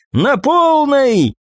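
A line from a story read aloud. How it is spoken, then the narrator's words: Shouted exclamation. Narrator (Russian): выкрикнула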